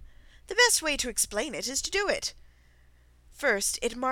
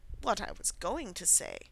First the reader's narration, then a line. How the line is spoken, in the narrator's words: said the Dodo, in an offended tone